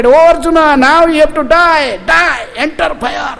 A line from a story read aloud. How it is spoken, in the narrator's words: shouted